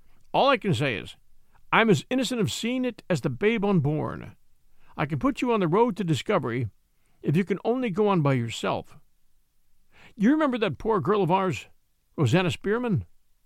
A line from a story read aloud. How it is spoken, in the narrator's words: he exclaimed